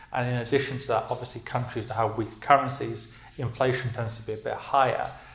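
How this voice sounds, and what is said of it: British accent. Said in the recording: “I'm from the UK, obviously, as you can tell by my accent”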